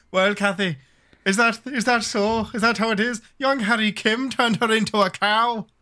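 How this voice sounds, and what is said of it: Stereotypical put-on Irish accent. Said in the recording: “I am Irish, and even I can't say it the way she... it's like one accent exists in America for the Irish, and it's wrong.”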